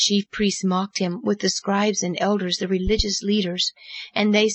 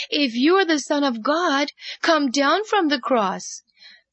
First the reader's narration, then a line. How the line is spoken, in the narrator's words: they cried out